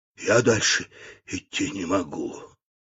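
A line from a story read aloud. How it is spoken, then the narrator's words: Whisper. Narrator (Russian): чайник шепнул утюгу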